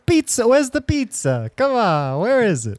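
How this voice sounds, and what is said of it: Exaggerated New York accent. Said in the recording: “my New York accent's getting way, way worse as we go on”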